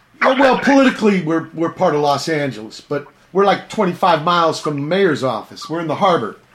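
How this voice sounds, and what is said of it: Strong Virginia American accent. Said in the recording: “your accent seems to be more extreme than I would associate with ... I'm not from here. I'm from Virginia.”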